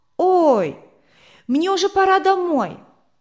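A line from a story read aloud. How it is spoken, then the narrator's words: Sudden alarmed shout. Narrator (Russian): Рудик вдруг вспомнил, что тетя Берта не разрешает ему задерживаться после школы, и выкрикнул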